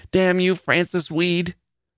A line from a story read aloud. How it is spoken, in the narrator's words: Julia cried, and the spit of her words